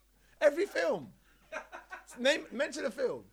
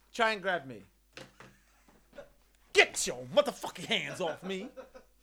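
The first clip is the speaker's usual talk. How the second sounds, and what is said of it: Denzel Washington impression. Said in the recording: “I could do a Denzel impression ... Do a Denzel, please.”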